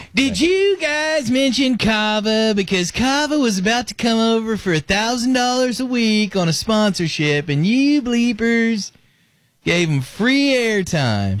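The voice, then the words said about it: Impression of BBJ. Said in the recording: “your BBJ impression”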